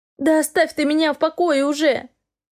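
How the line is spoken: Wailing woman. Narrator (Russian): взвыла бывшая госпожа

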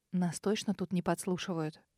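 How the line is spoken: Quiet young woman. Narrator (Russian): тихо спросила молодая женщина

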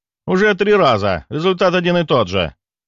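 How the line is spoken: Snapping. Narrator (Russian): огрызнулся

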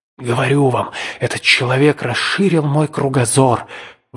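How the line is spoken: Exclaimed. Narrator (Russian): воскликнул он

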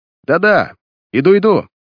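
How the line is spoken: Sudden shout. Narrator (Russian): Крикнул он вдруг в ответ на все еще не умолкающие звонки и стук в коридорную дверь

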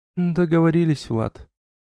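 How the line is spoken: Sigh. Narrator (Russian): вздохнула Элла

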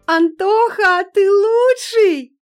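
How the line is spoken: Shrieking teenage girls. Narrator (Russian): визжали восьмиклассницы

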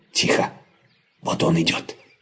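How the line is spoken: Whisper. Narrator (Russian): прошептал папа Ларсен

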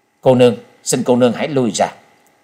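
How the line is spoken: Cold. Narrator (Vietnamese): Trần Lâm lạnh lùng hướng Hắc Y La Sát đệ nhị và nói

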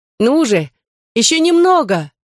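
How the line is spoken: Encouraging shout. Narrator (Russian): крикнула, подбадривая его Нина

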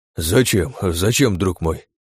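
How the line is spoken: Breathed out. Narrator (Russian): выдохнул Штерн

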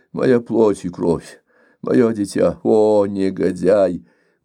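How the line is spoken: Loud unconscious groan. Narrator (Russian): Он громко застонал, сам того не замечая

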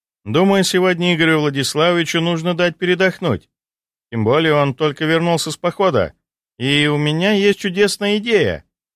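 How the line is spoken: Declaring. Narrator (Russian): заявила Морозова

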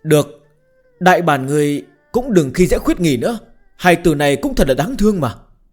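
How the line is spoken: Sighing. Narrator (Vietnamese): Bạch Tiểu Thuần lại thở dài

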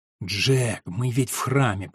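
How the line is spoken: Whisper. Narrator (Russian): прошептала Алина

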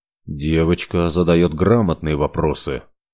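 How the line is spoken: Muttered. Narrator (Russian): пробормотал Ивар

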